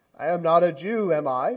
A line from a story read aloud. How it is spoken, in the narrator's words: Pilate replied